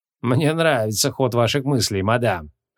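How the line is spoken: Smirking. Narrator (Russian): хмыкнул Поляков

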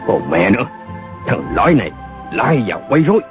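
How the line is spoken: Scolding shout. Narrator (Vietnamese): một đạo sĩ quát mắng

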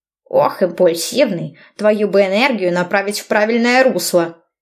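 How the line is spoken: Angry old man. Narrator (Russian): Добавил старикашка сердито

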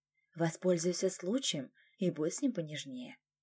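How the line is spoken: Whispered. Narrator (Russian): она шепнула

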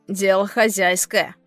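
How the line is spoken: Wry snort. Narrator (Russian): хмыкнул пират

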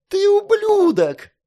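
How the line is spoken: Shrieking woman. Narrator (Russian): завизжала женщина

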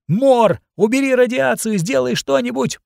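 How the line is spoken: Shouting. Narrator (Russian): прокричала Лавина

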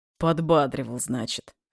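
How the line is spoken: Snorting. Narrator (Russian): хмыкнул я

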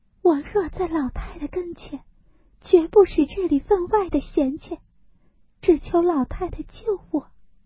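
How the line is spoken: Crying. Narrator (Chinese): 黛玉哭道

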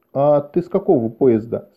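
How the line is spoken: Plain. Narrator (Russian): спросил Шем

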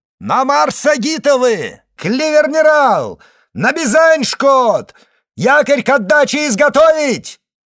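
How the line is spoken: Shouting command. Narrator (Russian): он крикнул

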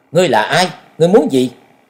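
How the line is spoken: Stern loud shout. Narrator (Vietnamese): nghiêm giọng quát lớn

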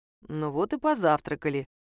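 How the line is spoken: Quiet. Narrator (Russian): тихо сказал Саша

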